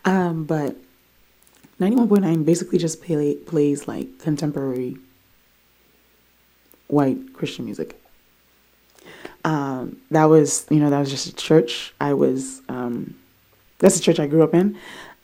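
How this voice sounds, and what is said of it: Worn-out, strained voice. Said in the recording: “I can definitely sing better than this, but my voice is gone because there was a lot going on this weekend”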